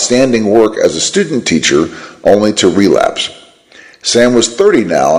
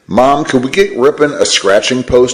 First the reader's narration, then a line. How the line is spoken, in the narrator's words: he asked